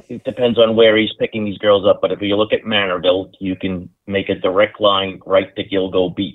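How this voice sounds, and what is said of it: New York accent, fast speech. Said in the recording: “slow down your New Yorkies”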